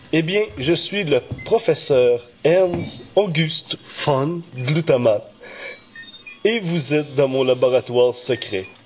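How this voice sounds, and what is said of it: Character voice with foreign accent. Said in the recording (French): “Ne faites pas attention à mon accent”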